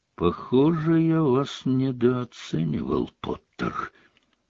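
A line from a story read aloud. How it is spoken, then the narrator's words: Quiet speech. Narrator (Russian): негромко сказал он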